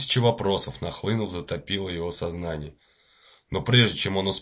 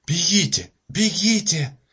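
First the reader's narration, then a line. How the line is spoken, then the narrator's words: Woman exclaiming. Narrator (Russian): воскликнула женщина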